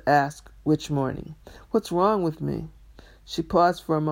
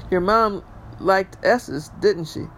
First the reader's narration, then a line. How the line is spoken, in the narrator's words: She laughed at her joke